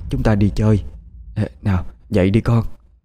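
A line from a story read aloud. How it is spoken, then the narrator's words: Soft hushed voice. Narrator (Vietnamese): bà Lý nói khẽ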